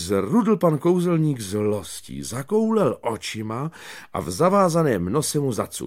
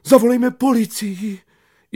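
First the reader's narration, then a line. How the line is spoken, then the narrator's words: Teacher crying out. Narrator (Czech): paní učitelka vykřikla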